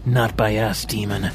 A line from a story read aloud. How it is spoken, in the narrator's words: Vincent snarled